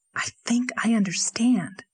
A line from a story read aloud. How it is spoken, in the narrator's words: whispered Anne